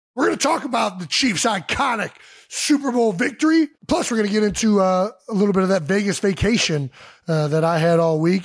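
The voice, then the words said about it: Strained, worn-out voice. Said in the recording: “You sound so funny. ... my voice is not doing so hot. A week in Vegas, yelling”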